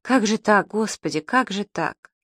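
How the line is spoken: Sighing. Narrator (Russian): Врач вздохнул

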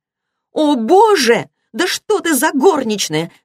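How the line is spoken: Angry shout. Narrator (Russian): закричала Сара сердито

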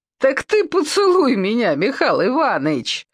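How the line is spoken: Laughing. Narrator (Russian): засмеялась Саша

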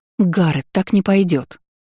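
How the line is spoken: Angry exclamation. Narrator (Russian): воскликнула зло

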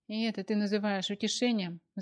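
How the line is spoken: Sighing. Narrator (Russian): вздохнула Аня

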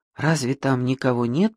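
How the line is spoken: Whispered. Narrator (Russian): прошептала Мэгги

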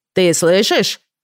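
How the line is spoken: Husband's loud repetition. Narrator (Russian): громко повторил муж

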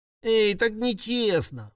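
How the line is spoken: Whiny complaint. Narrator (Russian): пожаловалась Пончик почему-то плаксивым голосом

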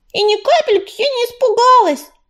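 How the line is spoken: Indignant hiss, tiny child. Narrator (Russian): возмущенно прошипела крошечная темно-серая малышка

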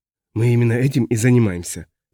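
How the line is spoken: Hoarse voice in helmet. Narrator (Russian): прохрипел в шлеме другой голос

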